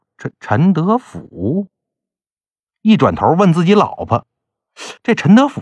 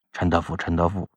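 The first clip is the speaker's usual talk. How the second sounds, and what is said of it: Quiet muttering. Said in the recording (Chinese): “小声在那念叨”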